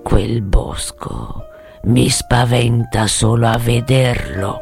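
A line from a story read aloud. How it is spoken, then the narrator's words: Green man murmuring. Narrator (Italian): aveva mormorato l'uomo verde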